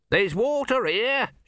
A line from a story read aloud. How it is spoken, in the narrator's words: shouted Om